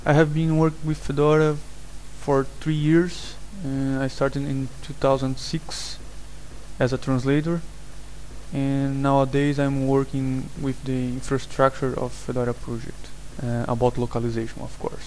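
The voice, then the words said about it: Brazilian-accented English. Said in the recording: “That's a strange accent you have ... I'm from Brazil”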